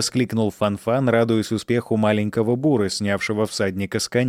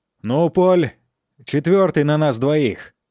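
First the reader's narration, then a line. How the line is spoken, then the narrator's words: Daredevil shouting. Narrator (Russian): крикнул сорвиголова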